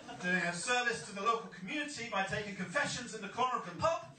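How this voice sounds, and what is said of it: English accent. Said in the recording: “you might notice from my accent, although I'm from Bridgeton, I'm not exactly from Bridgeton ... being English”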